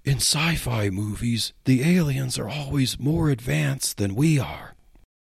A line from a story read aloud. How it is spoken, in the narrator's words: Officer Mike whispered